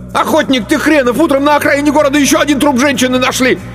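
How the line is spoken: Angry yelling. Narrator (Russian): Мишка и заорал

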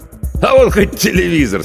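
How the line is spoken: Laughing. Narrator (Russian): смеялся Федор Иванович

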